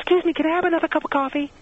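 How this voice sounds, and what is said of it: High-pitched voice rising at the end. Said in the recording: “She goes into the high voice ... they go up at the end of sentences”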